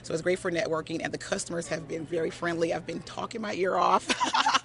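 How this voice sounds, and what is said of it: Hoarse voice. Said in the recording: “I'm hoarse”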